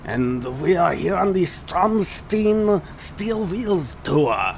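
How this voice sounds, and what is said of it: Weak put-on German accent. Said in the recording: “My German accent should really be better than that.”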